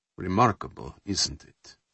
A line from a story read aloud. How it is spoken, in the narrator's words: Dubunin asked quietly